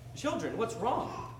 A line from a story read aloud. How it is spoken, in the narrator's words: Peter asked